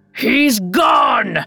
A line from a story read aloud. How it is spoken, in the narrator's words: The king roared